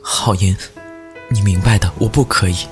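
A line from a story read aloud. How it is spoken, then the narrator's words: Crying. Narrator (Chinese): 我哭着在你面前说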